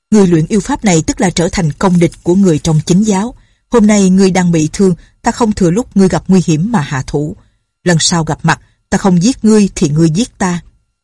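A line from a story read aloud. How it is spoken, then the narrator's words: Angry. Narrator (Vietnamese): Nhạc Bất Quần tức giận nói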